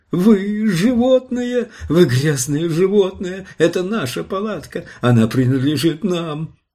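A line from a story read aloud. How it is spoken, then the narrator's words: Sobbing shrieking woman. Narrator (Russian): Женщина зарыдала, и женщина завизжала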